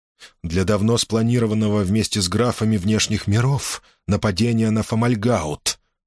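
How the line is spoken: Calm answer. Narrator (Russian): спокойно ответил Шоркан

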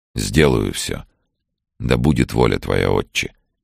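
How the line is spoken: Quiet promise. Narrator (Russian): тихо пообещал Вадим

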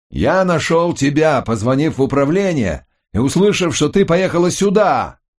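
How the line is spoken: Loud shouting. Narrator (Russian): прокричал он, догадавшись, что у нее неладно со слухом

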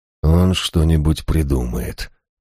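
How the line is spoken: Gloomy reply. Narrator (Russian): мрачно ответил я

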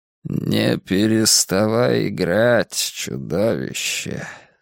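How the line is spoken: Strange-sounding voice. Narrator (Russian): сказал странно звучащим голосом муж с рогами

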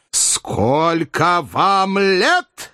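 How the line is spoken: Furious shrill question. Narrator (Russian): яростно и визгливо спросил Филипп Филиппович

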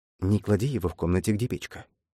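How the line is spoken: Whispered. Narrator (Russian): шепнул Джекоб девушке

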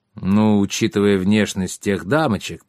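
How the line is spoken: Muttered. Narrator (Russian): пробормотал Паклус

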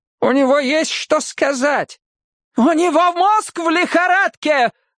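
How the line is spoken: Heated shouting woman. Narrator (Russian): закричала она с прежним жаром

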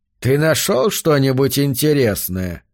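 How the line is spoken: Flat, indifferent question. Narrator (Russian): наконец спросил Йорк бесцветным и равнодушным голосом

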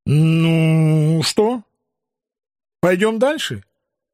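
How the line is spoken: Somewhat forced tone. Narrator (Russian): Несколько наигранным тоном предложил я

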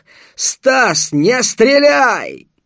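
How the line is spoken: Shouted at full lungs. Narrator (Russian): Крикнул во всю мощь легких

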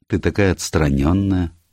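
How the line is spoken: Gloomy. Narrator (Russian): мрачно произнес Деннис

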